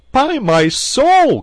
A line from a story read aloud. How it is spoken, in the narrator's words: cried Gilbert